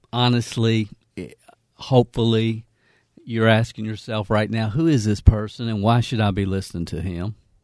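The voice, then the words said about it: Southern American accent. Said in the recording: “Who is this Southern accent?”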